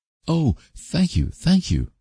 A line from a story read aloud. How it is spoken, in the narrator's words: cried Anne rapturously